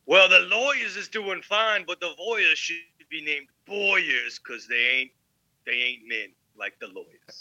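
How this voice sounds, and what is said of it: Odd put-on accent. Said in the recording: “I don't know why I did that accent. That was kind of weird.”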